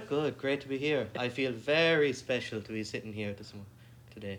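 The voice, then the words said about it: Irish accent. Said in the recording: “Irish accent. Oh gosh, it's just precious.”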